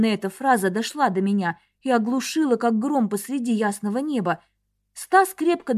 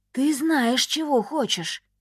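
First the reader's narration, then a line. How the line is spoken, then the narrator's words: Whispered in the ear. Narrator (Russian): шепнул на ухо Каандор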